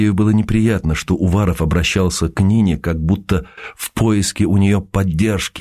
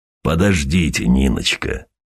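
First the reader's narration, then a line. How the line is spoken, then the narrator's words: Soft low bass voice. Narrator (Russian): мягким баском произнес Уваров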